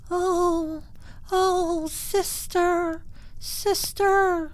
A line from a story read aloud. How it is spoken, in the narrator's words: she heard it moaning